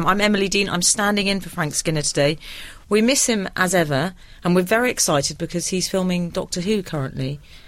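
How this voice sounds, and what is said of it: North London accent. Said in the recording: “a spoilt North London twang”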